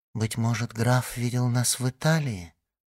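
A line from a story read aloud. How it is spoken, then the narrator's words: Said timidly. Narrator (Russian): робко сказала Валентина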